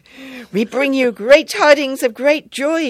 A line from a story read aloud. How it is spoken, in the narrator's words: shouted the angels, in Bengali, of course